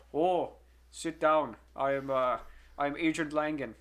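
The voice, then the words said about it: Imitates another person's accent, badly. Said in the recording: “I'm gonna butcher his accent.”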